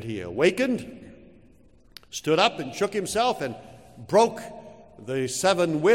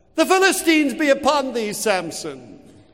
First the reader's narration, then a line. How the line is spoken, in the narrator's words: she cried once more